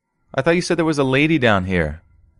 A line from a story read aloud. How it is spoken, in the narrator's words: asked quickly